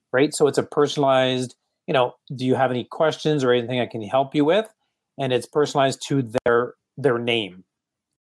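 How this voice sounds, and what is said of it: Slight French accent. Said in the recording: “I've got this little French accent coming out.”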